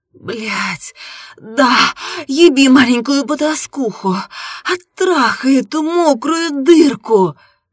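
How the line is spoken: Shouted. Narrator (Russian): закричала я

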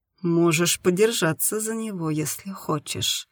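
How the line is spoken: Soft offer. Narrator (Russian): мягко предложил Степан

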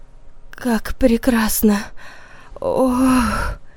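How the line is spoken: Moaning. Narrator (Russian): Стонал Санек

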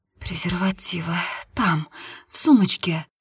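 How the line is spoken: Whisper. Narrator (Russian): прошептала Нина

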